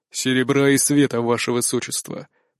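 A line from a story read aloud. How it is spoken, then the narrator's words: Calm. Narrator (Russian): произнес наставник спокойно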